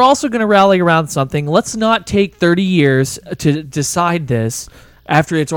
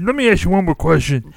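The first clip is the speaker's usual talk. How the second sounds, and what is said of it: Good imitation of a TV detective. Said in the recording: “do a good imitation”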